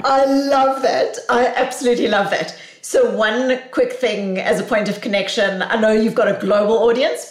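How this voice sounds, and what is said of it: South African accent. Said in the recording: “I come to you with a South African accent from Boston”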